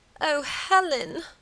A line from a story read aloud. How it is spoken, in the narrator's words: moaned Margaret